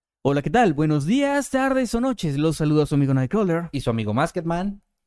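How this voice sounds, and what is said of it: Exaggerated radio announcer voice. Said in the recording (Spanish): “Me pueden mandar saludos todos con la voz de locutores”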